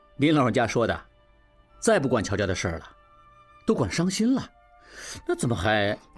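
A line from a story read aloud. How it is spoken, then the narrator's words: Smiling, hesitant. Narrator (Chinese): 何春看着他笑，半晌才说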